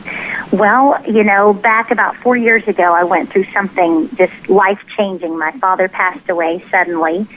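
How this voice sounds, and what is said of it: Light southern US accent. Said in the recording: “I expected a heavier accent because you were from Texas, but it's really not bad ... I like the southern accent”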